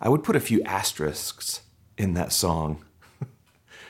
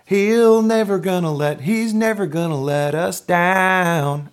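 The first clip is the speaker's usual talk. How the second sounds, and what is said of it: Put-on southern American accent. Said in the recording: “I don't know why I shifted into a southern accent there”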